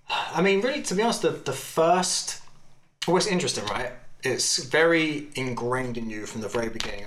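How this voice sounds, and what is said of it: English accent. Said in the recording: “For intents and purposes, I'm English, really. ... That's why I got this accent.”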